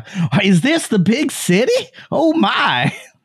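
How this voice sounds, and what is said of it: Naive rural Midwestern American character accent. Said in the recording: “Like some fucking doe-eyed hayseed coming in from Nebraska ... What accent is that?”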